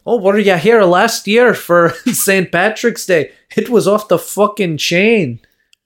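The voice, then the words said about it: Put-on Irish accent sounding Jamaican. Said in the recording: “Why does your Irish have like a hint of African in it? ... That's Jamaican”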